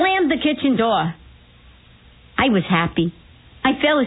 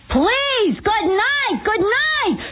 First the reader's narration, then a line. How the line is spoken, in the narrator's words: Then I called out in Yiddish